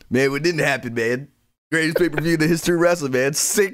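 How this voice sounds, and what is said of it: Imitates another person's voice. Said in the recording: “myself doing an impression of you”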